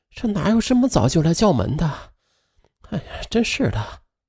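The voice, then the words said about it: Quiet, impatient muttering. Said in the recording (Chinese): “她不耐烦的问了一句，随即又小声嘟囔着”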